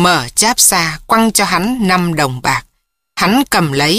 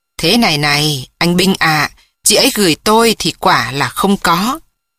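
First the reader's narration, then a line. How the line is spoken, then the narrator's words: Faint dry laugh. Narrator (Vietnamese): Ông cười nhạt bảo rằng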